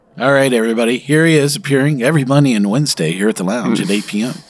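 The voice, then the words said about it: Vegas lounge singer voice. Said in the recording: “your favorite, Vegas lounge singer accent.”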